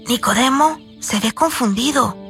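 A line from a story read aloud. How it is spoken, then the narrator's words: Whisper. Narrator (Spanish): susurró Jami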